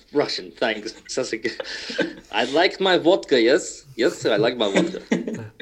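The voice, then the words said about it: Put-on Russian accent. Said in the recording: “Give me an accent. ... Russian.”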